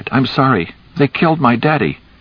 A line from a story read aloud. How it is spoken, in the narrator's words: cried